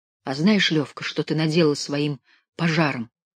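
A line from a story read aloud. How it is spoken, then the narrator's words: Said quietly. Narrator (Russian): тихо произнес Димка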